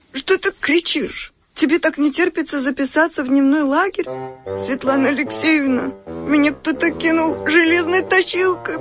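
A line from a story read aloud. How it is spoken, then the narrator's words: Whining. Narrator (Russian): прохныкала Ксюша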